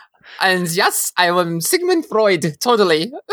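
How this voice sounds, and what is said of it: Exaggerated fake German accent. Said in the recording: “doing the ridiculous German accent”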